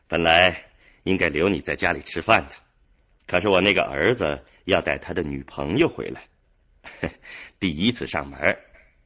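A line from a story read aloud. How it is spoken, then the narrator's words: Smiling apology. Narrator (Chinese): 吴斌笑着抱歉说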